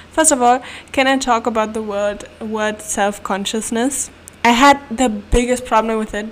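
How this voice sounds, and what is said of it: German accent in English. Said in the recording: “my mother language is German, as you may know from my accent.”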